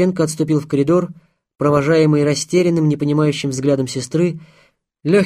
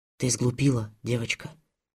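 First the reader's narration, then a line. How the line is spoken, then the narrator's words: Whispering. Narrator (Russian): прошептал он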